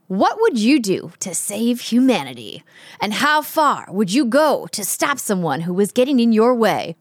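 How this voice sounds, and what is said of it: Serious announcer voice. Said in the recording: “my serious announcer voice”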